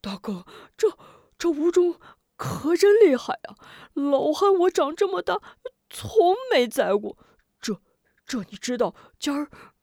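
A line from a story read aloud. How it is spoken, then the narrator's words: Out of breath. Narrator (Chinese): 龙彪气喘吁吁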